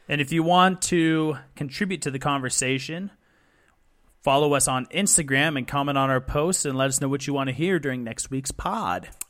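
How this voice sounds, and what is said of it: Professional radio announcer voice. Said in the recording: “You sound so professional when you do that. ... I've been working on my voice. Been working on my radio voice.”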